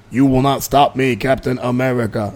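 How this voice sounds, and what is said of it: Imitates another person's voice. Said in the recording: “Was Ben Stein doing the voice? ... my imitations”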